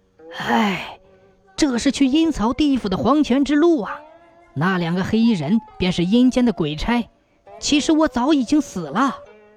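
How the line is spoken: Sighing. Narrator (Chinese): 刘立喜叹了一口气说

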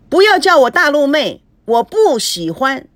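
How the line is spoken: Calling out. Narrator (Chinese): 孙娜对着门叫着

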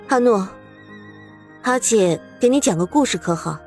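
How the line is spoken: Soft sigh. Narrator (Chinese): 刘子云 轻轻的叹了口气

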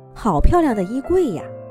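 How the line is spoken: Amazed exclamation. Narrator (Chinese): 有人在他面前惊叹

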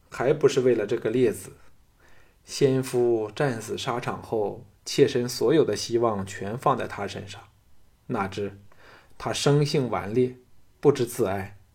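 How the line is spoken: Sighing. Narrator (Chinese): 倪夫人叹了一口气说

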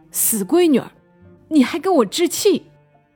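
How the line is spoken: Startled, calling out. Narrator (Chinese): 母亲愣了一下，喊了一句

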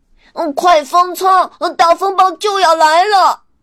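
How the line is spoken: Child shouting. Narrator (Chinese): 小亨利大叫起来

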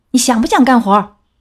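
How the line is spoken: Yelling. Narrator (Chinese): 管理员冲着大熊嚷起来

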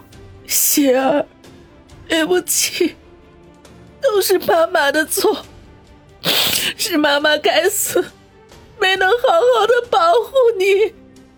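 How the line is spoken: Choked, sobbing. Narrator (Chinese): 方心则是掩面哭泣，哽咽的说道

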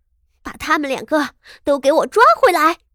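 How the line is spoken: Furious shouting. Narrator (Chinese): 昭娇公主气急败坏的喊着

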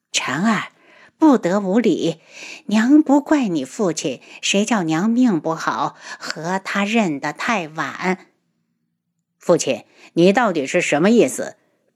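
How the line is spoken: Satisfied, soft voice. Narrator (Chinese): 北宫子渊满意的…柔声道

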